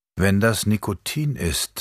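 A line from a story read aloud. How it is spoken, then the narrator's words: Plain. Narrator (German): sagte Mathilde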